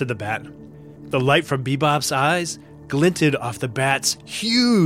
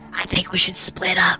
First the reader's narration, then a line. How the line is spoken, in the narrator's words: whispered BeeBop